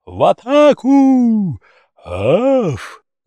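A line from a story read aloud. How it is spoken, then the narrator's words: Roaring pack. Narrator (Russian): взревела стая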